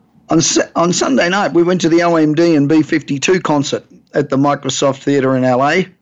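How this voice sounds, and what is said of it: Voice not in normal condition. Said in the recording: “Excuse my voice. I think it's too many aeroplane cabins.”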